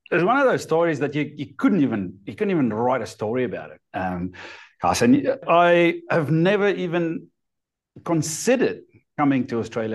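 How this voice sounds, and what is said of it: Speaks with a noticeable foreign accent. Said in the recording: “for everyone can detect listening to this podcast that you have an accent”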